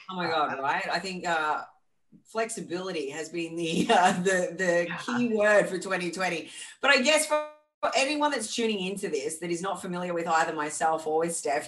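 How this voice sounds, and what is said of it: Australian accent. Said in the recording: “you can tell by our accents that I'm from the land down under”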